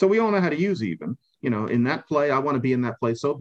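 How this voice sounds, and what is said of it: Usual voice. Nothing is said of it.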